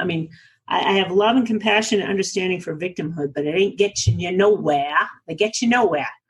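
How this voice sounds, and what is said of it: New England accent. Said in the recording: “did you hear my New England accent? I am from New England originally”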